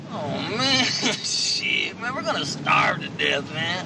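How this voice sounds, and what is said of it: Stoner Cheech and Chong impression. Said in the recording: “the Emperor does his best Cheech and Chong impression”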